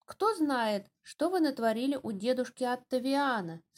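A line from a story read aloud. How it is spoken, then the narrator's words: Plain. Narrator (Russian): сказала она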